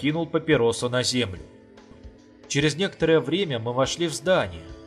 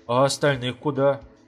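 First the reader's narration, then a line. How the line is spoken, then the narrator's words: Timid question. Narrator (Russian): робко спросил Горбач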